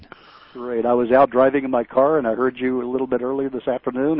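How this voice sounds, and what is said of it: Recognizable accent. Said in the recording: “I know who you are by your accent. I picked it up immediately.”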